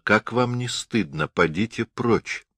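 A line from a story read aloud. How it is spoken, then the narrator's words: Quiet woman's voice. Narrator (Russian): эта женщина тихо сказала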